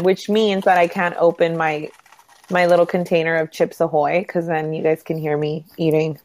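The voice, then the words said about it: Hoarse, nasal voice. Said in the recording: “I have a highly vexing voice ... it's so nasally because I have like really bad problems with my sinuses ... my voice is hoarse ... I have such a hoarse voice ... it's so nasally”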